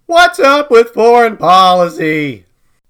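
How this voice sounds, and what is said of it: Eloquent Chester A. Arthur impression. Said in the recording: “Chester A. Arthur ... the most eloquently spoken president of the 1800s ... And you can hear it in that impression.”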